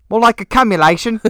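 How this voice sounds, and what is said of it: Put-on British accent. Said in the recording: “Do it in a British accent.”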